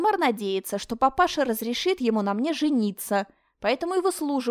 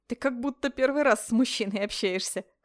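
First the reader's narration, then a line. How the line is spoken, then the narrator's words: Short laugh. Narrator (Russian): хохотнула та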